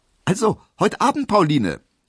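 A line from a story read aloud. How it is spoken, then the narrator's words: Calling out. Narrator (German): rief er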